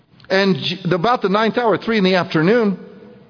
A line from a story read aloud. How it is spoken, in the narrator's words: Jesus cried with a loud voice